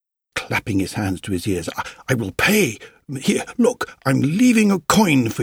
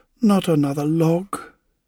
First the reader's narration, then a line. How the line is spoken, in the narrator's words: sighed